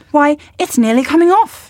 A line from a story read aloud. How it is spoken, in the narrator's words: cried